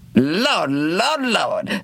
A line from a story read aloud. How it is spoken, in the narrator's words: that same Charlie Jones exclaims